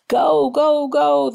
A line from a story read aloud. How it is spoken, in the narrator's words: the kids shouted